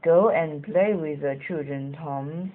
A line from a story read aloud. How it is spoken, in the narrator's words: said Grandpa